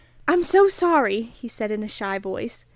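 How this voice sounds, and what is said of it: Reads aloud in a British accent. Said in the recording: “Oh my god, the British accent. ... Was that a British accent? ... sounded ... Br- like one. ... That was pretty good.”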